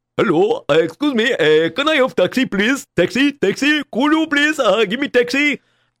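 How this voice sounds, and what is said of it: Put-on Indian accent with Russian tinge. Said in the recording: “a Indian guy with a Russian accent in his Indian accent”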